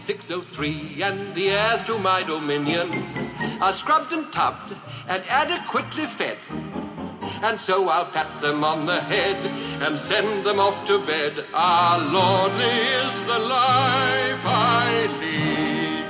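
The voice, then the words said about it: British accent, Mr. Banks singing. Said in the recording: “speaking with a British accent. Just kidding, I still speak in a British accent ... That was Mr. Banks and Mary Poppins”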